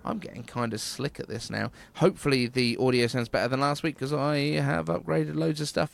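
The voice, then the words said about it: British accent. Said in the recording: “Apple News with a British accent.”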